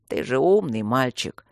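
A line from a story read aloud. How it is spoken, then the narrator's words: Tired hiss. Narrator (Russian): устало прошипел собеседник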